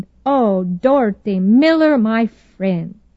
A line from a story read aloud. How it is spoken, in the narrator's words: With her engaging Norwegian accent, she exclaimed